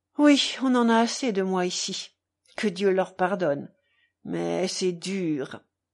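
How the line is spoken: Moaning. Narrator (French): gémit Mitya

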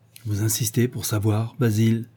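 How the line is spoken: Low voice. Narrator (French): demanda-t-il d'une voix basse

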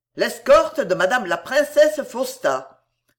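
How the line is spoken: Curt command. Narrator (French): commanda Espinosa d'une voix brève

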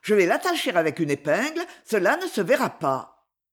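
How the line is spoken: Quick, lively. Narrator (French): dis-je vivement

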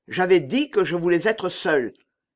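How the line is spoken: Exclaimed angrily. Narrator (French): s'écria-t-il en voyant le jeune homme

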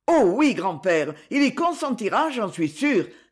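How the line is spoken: Relieved, confident exclamation. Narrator (French): s'écria Régis, dont toutes les inquiétudes se dissipaient, et qui ne doutait déjà plus du succès de son entreprise

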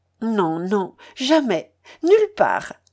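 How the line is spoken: Exclaimed. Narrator (French): s'écria-t-elle

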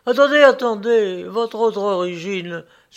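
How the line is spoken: Flattering exclamation. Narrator (French): s'écria le pauvre, pour le flatter

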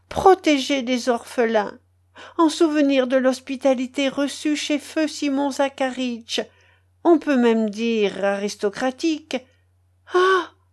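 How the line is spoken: Exclaimed. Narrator (French): s'écria-t-elle

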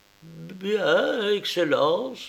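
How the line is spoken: Woman stammering. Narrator (French): balbutia la femme

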